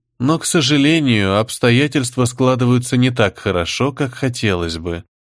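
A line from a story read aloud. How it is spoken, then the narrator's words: Soft interruption. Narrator (Russian): мягко перебила секретную воеводу Всеведа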